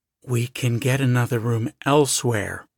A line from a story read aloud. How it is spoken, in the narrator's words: Tom said in a low voice